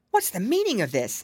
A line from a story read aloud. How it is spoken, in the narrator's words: exclaimed the soldier